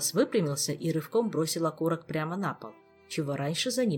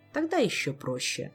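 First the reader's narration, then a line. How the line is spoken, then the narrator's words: Relieved sigh. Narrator (Russian): вздохнул Карлос, снова расслабившись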